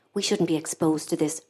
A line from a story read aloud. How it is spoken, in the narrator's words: Bridie said in an undertone